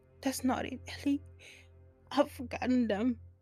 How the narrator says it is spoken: she said, trying not to wail

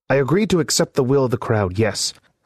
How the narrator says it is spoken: snapped Byron

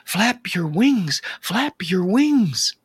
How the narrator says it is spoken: The mama bird pleaded

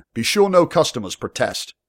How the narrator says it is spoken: he called out towards his men

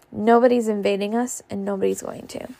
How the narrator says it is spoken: said Melly coolly

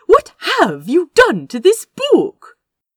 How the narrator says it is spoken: He exclaimed

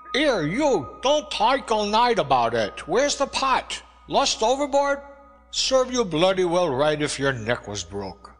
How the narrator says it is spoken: the cook was after me, shouting through the lee galley door

